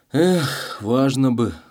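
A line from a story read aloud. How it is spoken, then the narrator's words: Sad sigh. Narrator (Russian): грустно вздохнул он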